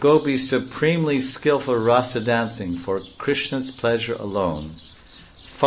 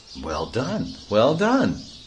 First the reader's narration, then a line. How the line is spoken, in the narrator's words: the other gopis exclaim